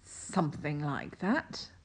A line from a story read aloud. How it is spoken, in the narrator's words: Crowley mumbled